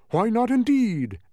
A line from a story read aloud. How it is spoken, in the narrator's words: exclaimed